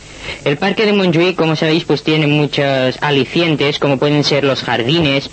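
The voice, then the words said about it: Catalan accent speaking Spanish. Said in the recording (Catalan): “accent català, aquest accent inconfusible d'una persona catalanoparlant que domina perfectament el castellà, però que es nota, no? ... Se li nota molt”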